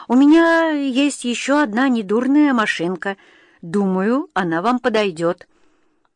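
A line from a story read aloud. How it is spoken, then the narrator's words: Trembling voice. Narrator (Russian): ответил он дрожащим голосом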